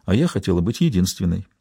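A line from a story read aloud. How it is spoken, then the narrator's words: Quiet, after a pause. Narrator (Russian): Помолчав, Берил тихо добавила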